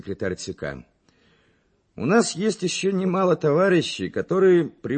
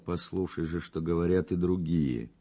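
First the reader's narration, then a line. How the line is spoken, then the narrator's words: Quiet speech. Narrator (Russian): Быстров, укоризненно взглянув на него, тихо сказал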